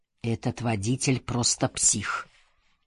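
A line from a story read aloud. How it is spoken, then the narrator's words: Mutter. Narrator (Russian): пробормотал я про Бакеру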